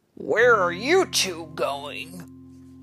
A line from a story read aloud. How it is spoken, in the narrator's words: He growled